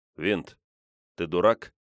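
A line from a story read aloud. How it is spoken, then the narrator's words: Calm question. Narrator (Russian): спокойно спросил я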